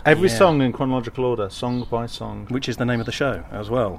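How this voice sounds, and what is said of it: English accent. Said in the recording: “the English accents are ... and”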